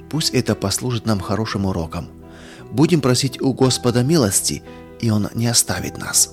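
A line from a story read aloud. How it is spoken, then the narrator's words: Quiet. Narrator (Russian): тихо сказал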